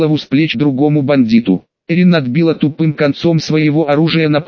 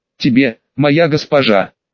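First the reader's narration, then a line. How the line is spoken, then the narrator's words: Girl laughing loudly. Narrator (Russian): расхохоталась девушка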